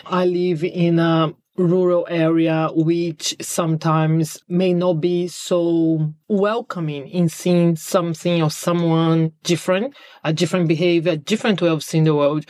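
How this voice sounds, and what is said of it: Non-British foreign accent. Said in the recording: “I'm not British in terms of I wasn't born here. So I do have an accent.”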